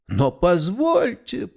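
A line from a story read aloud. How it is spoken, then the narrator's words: Moaning. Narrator (Russian): простонал Дидрихс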